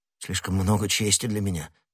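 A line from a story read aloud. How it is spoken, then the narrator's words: Muttering. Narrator (Russian): пробормотал начальник стражников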